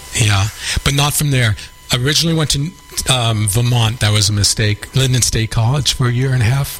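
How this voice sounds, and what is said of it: New York accent. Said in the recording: “you haven't lost your New York accent”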